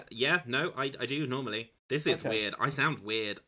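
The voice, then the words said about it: Put-on English accent. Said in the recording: “Why are you English now? ... It's just a dog accent, I guess.”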